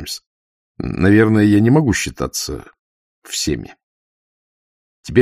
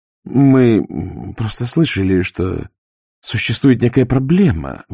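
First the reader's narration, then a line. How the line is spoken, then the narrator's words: Forced out, woman. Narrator (Russian): выдавила она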